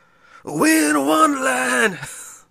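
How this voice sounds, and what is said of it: Raspy rock singer impression. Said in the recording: “See if I could do an impression of that guy singing ... I can't do it ... He's got a really raspy kind of...”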